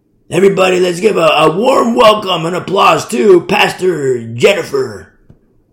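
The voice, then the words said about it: Hyped rock star announcer voice. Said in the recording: “They do the rock star voice.”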